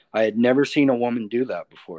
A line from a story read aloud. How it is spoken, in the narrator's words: said